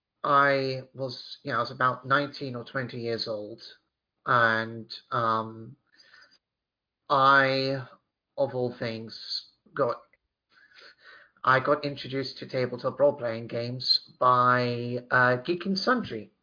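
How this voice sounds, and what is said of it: British accent. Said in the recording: “I may have a British accent”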